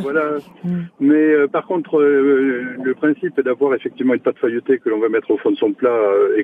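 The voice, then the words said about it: Southwestern French accent. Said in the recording (French): “la recette vient du sud-ouest de la région. ... Comme votre accent, hein, d'ailleurs.”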